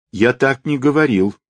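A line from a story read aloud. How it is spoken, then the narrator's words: Boy shouting in protest. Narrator (Russian): протестуя закричал мальчик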